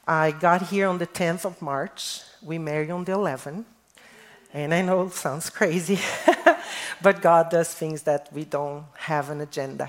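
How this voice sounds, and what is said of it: Brazilian accent. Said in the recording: “this accent is not fake. I am Brazilian, born in Brazil”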